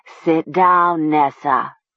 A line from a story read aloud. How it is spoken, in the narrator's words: Talia heard herself say in a thick, distorted voice